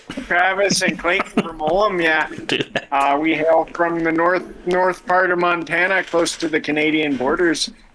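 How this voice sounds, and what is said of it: Put-on Midwest American accent. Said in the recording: “maybe I'll do this whole episode in a Midwest accent, don't you know?”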